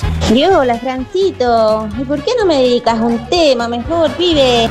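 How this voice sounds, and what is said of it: Put-on Argentine Spanish accent. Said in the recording (Spanish): “La radio pide que mandes un audio... pero con otro acento... me encantó ese acento, piba!”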